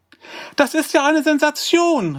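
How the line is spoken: Called out. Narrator (German): rief sie

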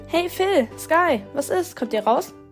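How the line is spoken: Call from outside. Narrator (German): rief da auch schon Sophie von draußen

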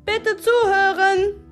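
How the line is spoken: Loud call over murmuring. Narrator (German): rief Miss Blackheart, um unser Getuschel zu übertönen

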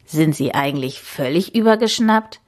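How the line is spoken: Man croaking. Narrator (German): krächzte er

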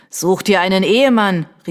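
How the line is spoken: Called out. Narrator (German): rief ein Dritter

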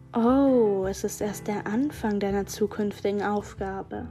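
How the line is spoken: Soft purring voice. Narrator (German): versprach mir die Stimme leise in einem säuselnden Ton

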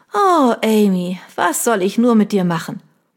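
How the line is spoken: Hearty laughter. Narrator (German): Peggy mit einem herzhaften Lachen

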